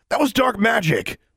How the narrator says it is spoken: Theo shouted

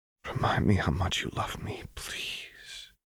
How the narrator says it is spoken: Lux whispered

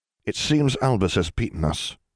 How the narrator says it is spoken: Remus added, his voice wavering

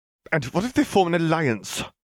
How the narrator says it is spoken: Gellert snorted

